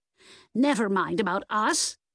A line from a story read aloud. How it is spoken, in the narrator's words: Nan snapped